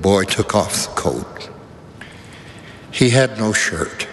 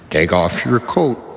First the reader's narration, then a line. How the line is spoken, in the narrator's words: the teacher said